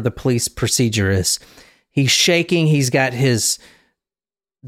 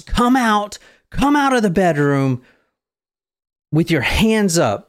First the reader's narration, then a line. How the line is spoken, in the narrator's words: yells